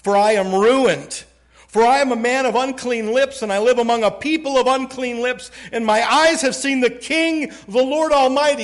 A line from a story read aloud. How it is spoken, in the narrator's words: cried